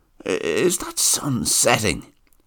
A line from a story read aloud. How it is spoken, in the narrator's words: he muttered